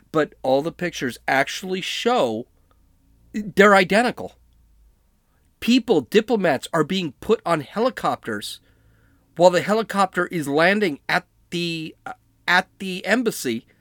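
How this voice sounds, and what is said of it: Yelling, loud agitated speech. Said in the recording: “I'm yelling”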